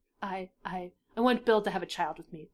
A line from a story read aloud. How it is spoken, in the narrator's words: Dipper sighed